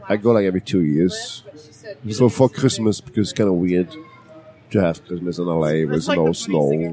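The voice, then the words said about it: Thick German accent. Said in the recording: “you still have your thick German accent.”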